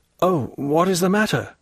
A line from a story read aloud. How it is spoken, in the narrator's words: said Dantès